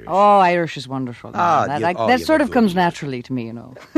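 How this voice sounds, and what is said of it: Put-on Irish accent. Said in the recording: “Irish ... I can hear that little sparkle in the voice.”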